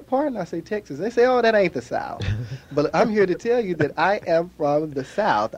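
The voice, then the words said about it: Southern East Texas accent. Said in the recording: “I am from East Texas... you can hear it in my voice”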